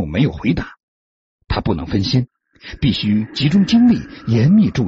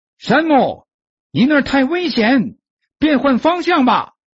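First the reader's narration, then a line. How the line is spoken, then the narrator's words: Shout from below. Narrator (Chinese): 脚下传来比尔的叫声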